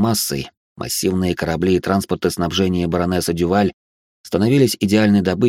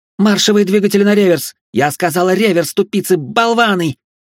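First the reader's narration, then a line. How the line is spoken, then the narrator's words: Shrieking. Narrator (Russian): визжала Жасмин Дюваль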